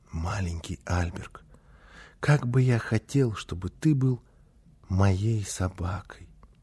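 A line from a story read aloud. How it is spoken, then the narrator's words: Soft whisper. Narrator (Russian): тихонько, так чтобы мама не слышала, зашептал ему на ухо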